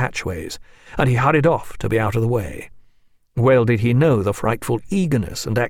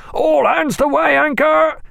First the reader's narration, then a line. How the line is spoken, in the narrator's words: An unexpected order that was instantly followed by the boatswain's call and the powerful voices of his mates roaring